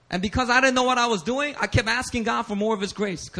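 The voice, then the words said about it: Speaks with a ghetto accent. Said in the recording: “this ghetto accent that keeps coming out when I preach”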